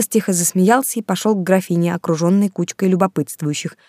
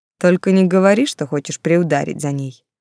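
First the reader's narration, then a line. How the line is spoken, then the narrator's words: Mocking. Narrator (Russian): герцог насмешливо произнес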